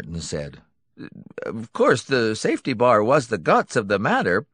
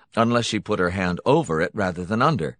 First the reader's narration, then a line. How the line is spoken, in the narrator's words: Hunton said flatly